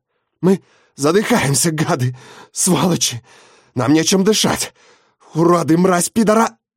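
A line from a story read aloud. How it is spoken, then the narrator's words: Hoarse wheezing. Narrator (Russian): Барбара хрипит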